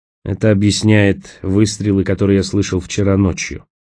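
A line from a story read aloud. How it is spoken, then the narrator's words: Grim remark. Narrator (Russian): мрачно заметил Николас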